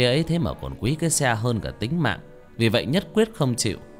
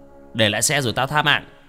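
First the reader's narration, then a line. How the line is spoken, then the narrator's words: Shout. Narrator (Vietnamese): hắn quát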